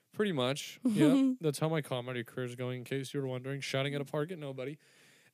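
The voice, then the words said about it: Strained, fading voice. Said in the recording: “I'm starting to lose my voice right now. Can you hear it? ... I yelled”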